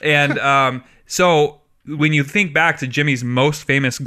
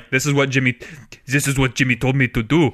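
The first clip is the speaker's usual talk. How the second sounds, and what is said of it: Put-on French accent. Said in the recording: “that's my best French accent”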